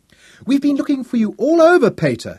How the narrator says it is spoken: she cried

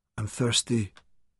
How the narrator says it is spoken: Santan whispered

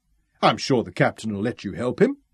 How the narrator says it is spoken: Ralph chuckled

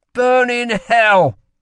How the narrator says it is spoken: spat Lila

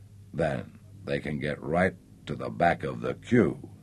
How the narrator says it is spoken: she mumbled into his lips

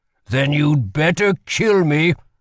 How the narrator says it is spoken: growled Holland

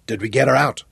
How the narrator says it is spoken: Johnny asked thickly

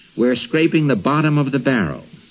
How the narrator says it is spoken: he told his household with a sigh

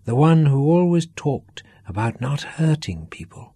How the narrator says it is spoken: Duff said softly

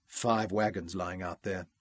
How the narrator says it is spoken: Ralph muttered moodily

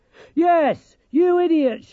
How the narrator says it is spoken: shouted Dorcas

